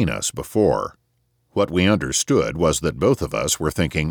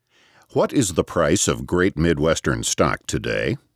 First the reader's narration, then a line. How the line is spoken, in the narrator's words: asked Grandma Galt in a firm, clear voice